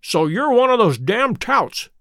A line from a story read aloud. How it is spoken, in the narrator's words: cried the lad